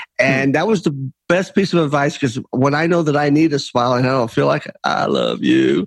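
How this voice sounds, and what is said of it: Usual voice. Nothing is said of it.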